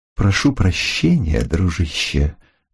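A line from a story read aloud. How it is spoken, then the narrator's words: Deceptively soft tone. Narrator (Russian): начал он обманчиво мягким тоном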